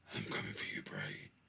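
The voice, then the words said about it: Deep-voiced Braun Strowman impression. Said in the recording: “Braun Strowman do a promo ... With a deep voice.”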